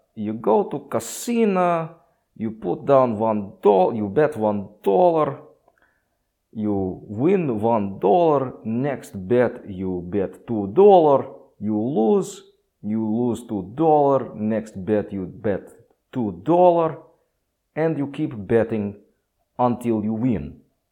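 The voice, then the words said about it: Imitated Russian accent. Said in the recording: “He's Russian ... big Russian dude. And just the most hysterical accent ... That was kind of how he talked.”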